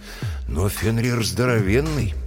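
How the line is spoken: Sighing. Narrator (Russian): Брэм вздохнул

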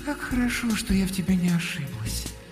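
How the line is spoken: Cooing. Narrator (Russian): проворковала Алёнушка

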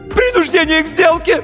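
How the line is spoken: High-pitched yell, voice cracking. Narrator (Russian): Неожиданно высоким юношеским голосом завопил нотариус и дал петуха

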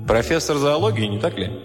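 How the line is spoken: Plain question. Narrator (Russian): спросил прокурор

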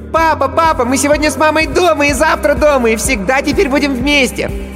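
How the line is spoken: Shouting. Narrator (Russian): Но Никита уже кричал

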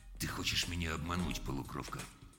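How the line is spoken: Sudden, very quiet. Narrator (Russian): Джонс внезапно сказал очень тихо

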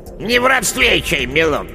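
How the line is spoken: Unfriendly grumble, old witch. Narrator (Russian): неприветливо буркнула яга

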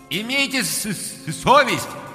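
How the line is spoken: Loud. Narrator (Russian): громко сказал Ганс

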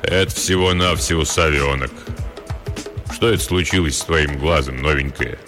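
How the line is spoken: Deep booming voice. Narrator (Russian): Пробасил

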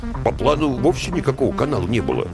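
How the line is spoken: Muttered from behind. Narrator (Russian): буркнули из-за спины

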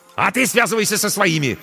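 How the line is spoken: Barked. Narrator (Russian): рявкнул ей Корнейчук

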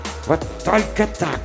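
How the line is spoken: Hissed instructively from behind. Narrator (Russian): назидательно прошипела за спиной полковника Дженни Маль

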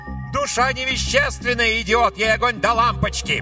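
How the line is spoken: Shouting. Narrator (Russian): ведьма крикнула

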